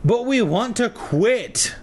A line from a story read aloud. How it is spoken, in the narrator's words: Lee whined